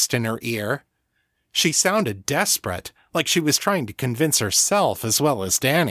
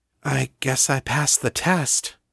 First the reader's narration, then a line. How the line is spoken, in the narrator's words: Danni said, hesitantly